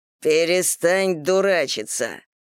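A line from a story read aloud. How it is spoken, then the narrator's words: Menacing hiss. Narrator (Russian): грозно прошипел Игорь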